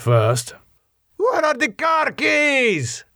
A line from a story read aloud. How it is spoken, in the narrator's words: Miguel shouted up the stairs